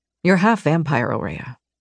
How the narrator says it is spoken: said quietly

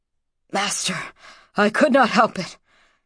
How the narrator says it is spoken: panted the digger

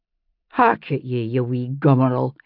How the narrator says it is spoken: his mother said, but in a tolerant tone

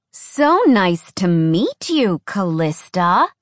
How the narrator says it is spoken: Alex said, her voice sugar-coated with sarcasm

